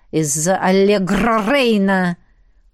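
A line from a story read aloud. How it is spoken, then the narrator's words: Blaming growl. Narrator (Russian): прорычал он, опять виня во всем безопасника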